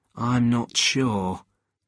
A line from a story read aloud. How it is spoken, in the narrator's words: Jed said in a worried voice